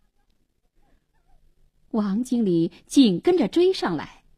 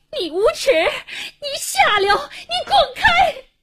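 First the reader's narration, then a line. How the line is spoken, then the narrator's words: Terrified, furious yelling. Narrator (Chinese): 一声狂喊，黄英一脸恐怖地逃了出来，气急败坏地骂着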